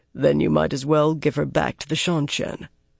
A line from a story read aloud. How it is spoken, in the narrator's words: Lan said quietly from the door